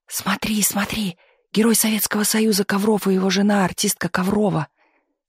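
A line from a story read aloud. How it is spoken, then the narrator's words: Excited whispers and shouts. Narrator (Russian): Слышался вокруг восторженный шепот, а иногда и крик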